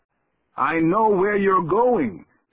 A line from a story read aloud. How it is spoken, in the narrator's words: he shouted as the rest of the temple began to fall in